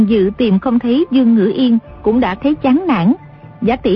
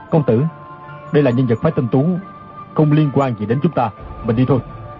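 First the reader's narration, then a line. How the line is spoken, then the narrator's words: Lowered voice. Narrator (Vietnamese): Chu Đăng Thần hạ giọng nói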